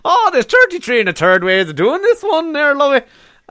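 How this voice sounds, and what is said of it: Put-on Irish accent. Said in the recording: “That's the only way I can ever do an Irish accent”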